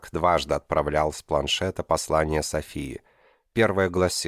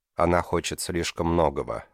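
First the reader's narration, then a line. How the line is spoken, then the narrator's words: Flat expressionless voice. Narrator (Russian): ответил он безликим тоном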